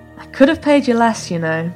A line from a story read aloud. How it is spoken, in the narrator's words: he chuckled